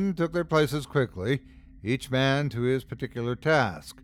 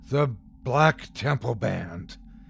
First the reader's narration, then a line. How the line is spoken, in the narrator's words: he gasped aloud